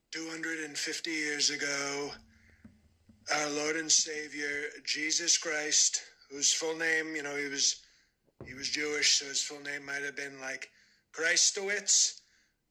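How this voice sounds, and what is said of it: Donald Trump impression. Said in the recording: “a clip of a dude doing a Trump impression”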